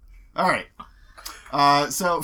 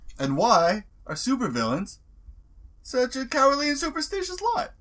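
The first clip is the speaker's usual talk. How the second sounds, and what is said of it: Bad imitation of another person's voice. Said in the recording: “best Jerry Seinfeld impression I can do ... That was so terrible”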